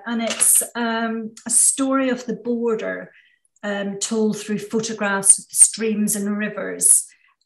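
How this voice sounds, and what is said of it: Northern Irish accent. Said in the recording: “The border, sorry, in Northern Ireland. Which you can probably tell from my accent, which is where I'm from.”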